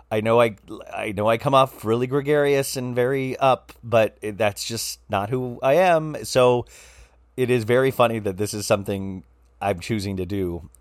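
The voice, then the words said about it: Slightly raspy voice. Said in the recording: “my voice is a little raspy. ... I think you would hear a little rasp in my voice”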